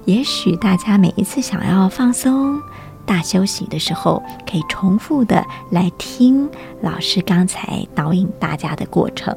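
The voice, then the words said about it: Very soft, gentle, calm speech. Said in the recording (Chinese): “让我现在讲话都要变得特别的轻柔， 模仿老师的节奏”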